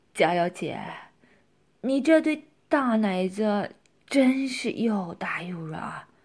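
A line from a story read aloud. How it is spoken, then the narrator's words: Leering laugh. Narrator (Chinese): 色心跟胆子又大了起来，淫笑着说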